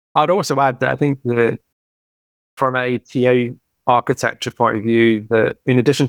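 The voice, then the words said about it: British accent. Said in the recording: “That's a very British T-U-double-L, tough with my accent”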